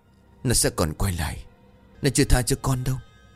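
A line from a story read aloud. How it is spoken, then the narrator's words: Trembling with fear. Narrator (Vietnamese): Cường vẫn run rẩy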